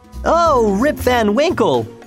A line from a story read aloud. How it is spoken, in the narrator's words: exclaimed two or three people